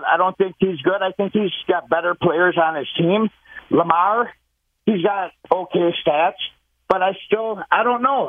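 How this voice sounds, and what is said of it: Minnesota accent. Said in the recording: “You do got that accent. You said Minnesota.”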